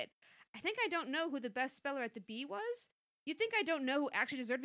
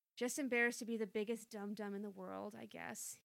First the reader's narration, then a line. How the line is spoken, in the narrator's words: he said quietly